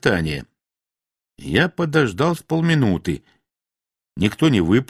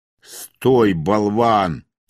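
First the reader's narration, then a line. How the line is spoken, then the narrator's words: Booming voice from above. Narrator (Russian): прогремело откуда-то сверху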